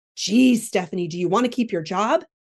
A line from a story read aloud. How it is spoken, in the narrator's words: barked Simone